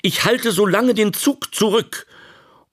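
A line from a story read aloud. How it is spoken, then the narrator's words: Calling out. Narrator (German): rief er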